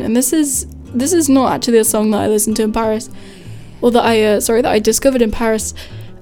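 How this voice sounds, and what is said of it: Voice fading, going hoarse. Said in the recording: “I think I'm losing my voice on air.”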